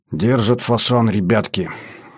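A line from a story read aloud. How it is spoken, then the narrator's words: Lifeless voice. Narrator (Russian): каким-то неживым голосом сказал Батоныч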